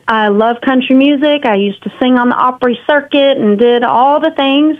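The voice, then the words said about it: Texan country accent. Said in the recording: “I grew up in a now big city of Grapevine, Texas ... I've got the accent.”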